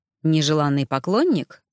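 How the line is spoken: Wry snort. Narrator (Russian): хмыкнул

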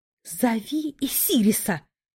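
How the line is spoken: Hissed. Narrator (Russian): Буквально прошипела я

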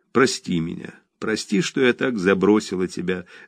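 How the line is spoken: Tearful. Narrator (Russian): заплакав, сказала она

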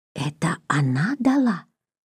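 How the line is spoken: Quick whisper. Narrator (Russian): быстрым шепотком спросил Сеня

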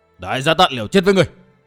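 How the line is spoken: Shouting. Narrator (Vietnamese): Tên đại sát thủ quát

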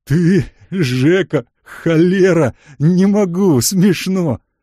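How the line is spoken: Hoarse wheeze. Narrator (Russian): Он уже начинал хрипеть

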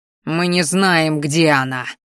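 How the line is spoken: Growl like wounded animal. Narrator (Russian): зарычал я, похожий в тот момент на раненого зверя

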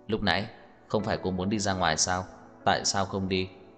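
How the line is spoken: Cold question. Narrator (Vietnamese): Tưởng Thiên Lỗi lạnh lùng hỏi

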